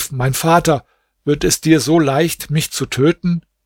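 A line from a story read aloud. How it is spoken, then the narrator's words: Calling out. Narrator (German): Nureddin rief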